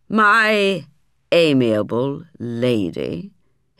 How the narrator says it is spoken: he interrupted, with an almost diabolical sneer on his face

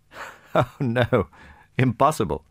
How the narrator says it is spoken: said Prince Andrei, laughing

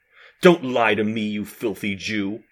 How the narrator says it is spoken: he growled

